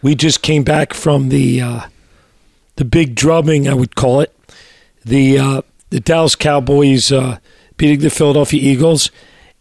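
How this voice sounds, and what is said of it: Hoarse, raspy voice. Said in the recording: “we're a little bit hoarse today ... I'm a little raspy, so I apologize for my voice”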